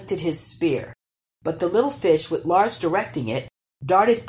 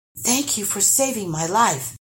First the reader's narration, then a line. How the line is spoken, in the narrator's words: gasped Lars